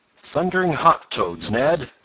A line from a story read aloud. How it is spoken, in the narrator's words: exclaimed